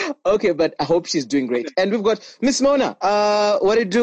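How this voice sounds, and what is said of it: Usual voice. Nothing is said of it.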